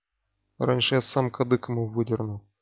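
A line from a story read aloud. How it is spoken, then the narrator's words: Grumbled under breath. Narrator (Russian): буркнул себе под нос ворон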